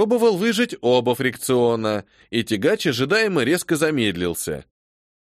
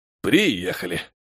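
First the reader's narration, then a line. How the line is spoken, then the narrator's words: Weary, worn out. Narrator (Russian): произнес я устало, все же по пересеченной местности довольно трудно ехать, даже на таком транспорте, как тягач, особенно в моем состоянии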